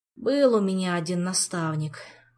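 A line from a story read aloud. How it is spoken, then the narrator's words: Sigh. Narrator (Russian): вздохнул Пассионарио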